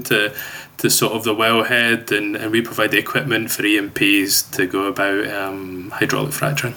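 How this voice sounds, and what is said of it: Scottish accent. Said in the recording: “that lovely accent ... grew up in Glasgow in Scotland ... I'm still holding on desperately to that accent”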